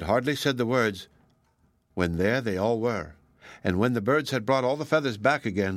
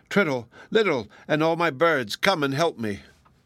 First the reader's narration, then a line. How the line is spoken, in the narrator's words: he cried in despair